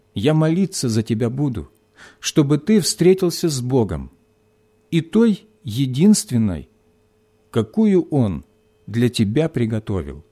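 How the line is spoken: Quiet. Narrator (Russian): тихо добавила

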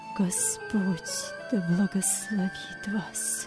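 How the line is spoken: Choked whisper. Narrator (Russian): Вилли сдавленным голосом прошептал

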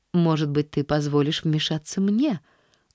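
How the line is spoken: Serene calm tone. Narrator (Russian): начала она самым безмятежным тоном

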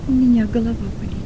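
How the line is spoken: Quiet. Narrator (Russian): он тихо промолвил

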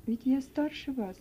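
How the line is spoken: Gentle, affectionate. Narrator (Russian): ласково продолжал Том

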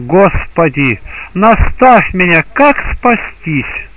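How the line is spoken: Exclaimed. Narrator (Russian): он воскликнул

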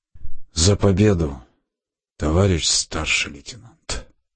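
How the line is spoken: Solemn toast. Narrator (Russian): приподняв торжественно, сказал

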